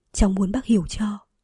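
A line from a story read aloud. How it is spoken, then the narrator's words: Whispering. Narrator (Vietnamese): cô thì thầm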